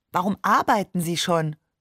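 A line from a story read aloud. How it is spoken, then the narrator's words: Plain question. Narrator (German): fragte ich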